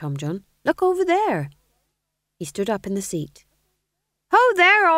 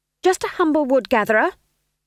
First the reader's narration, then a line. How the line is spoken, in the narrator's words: she snapped